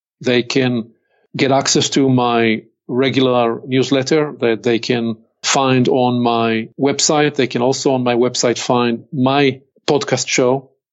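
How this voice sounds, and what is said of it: Hebrew accent. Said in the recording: “my Hebrew accent”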